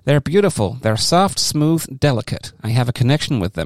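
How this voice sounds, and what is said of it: Put-on accent while quoting someone. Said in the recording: “So why are you doing that accent?”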